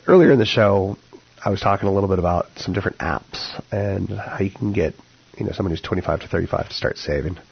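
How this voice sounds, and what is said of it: Rough, fried-sounding voice. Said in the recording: “my voice is a little fried”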